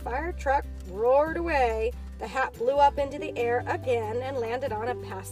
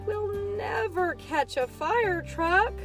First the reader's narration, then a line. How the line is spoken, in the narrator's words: moaned BJ